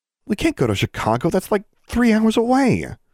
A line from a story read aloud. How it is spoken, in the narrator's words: Alexandra exclaimed